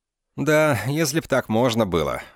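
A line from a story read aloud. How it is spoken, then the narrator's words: Sighing. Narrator (Russian): вздохнул Шон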